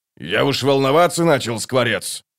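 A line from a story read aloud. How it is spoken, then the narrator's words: Grumbling. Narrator (Russian): проворчал первый кулак Дуджик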